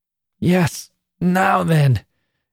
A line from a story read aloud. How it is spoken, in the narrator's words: gasped Annie at length